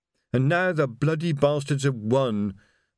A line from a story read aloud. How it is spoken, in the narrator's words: moaned Reg